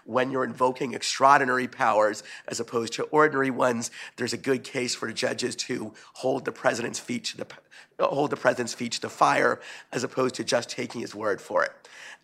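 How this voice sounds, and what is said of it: Hoarse, voice giving out. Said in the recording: “I'm beginning to lose my voice”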